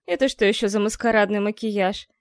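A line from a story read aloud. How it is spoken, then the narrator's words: Displeased grumbling. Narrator (Russian): недовольно проворчала Морриган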